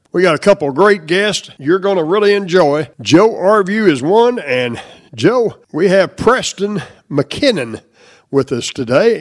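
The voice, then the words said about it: Congested voice from a cold. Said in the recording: “I've got a cold, my voice may not sound the same”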